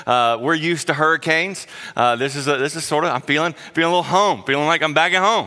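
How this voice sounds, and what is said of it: Southern US accent. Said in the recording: “I grew up in South Carolina, if you can't tell my accent.”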